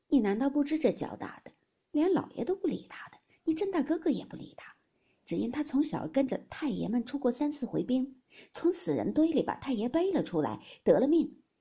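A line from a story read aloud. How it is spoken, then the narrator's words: Sighing. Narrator (Chinese): 尤氏叹道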